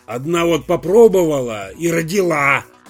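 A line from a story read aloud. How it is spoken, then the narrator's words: Irritated grumble. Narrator (Russian): раздраженно буркнул в ответ Артамонов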